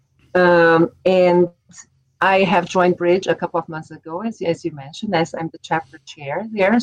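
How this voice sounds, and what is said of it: Brazilian Portuguese accent. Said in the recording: “I'm from Brazil ... where's this accent from. So I am originally from Brazil. I'm from São Paulo.”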